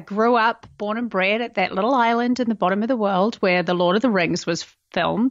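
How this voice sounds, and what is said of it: New Zealand accent. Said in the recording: “I'll just start with the accent... I'm originally from New Zealand”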